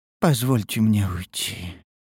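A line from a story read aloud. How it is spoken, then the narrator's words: Tired sigh. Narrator (Russian): вздохнула ушастая устало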